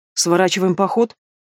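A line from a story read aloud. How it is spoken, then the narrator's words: Gloomy clarifying question. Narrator (Russian): мрачно уточнил Илар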